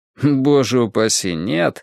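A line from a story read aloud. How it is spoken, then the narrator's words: Laughing. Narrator (Russian): рассмеялся Джонатан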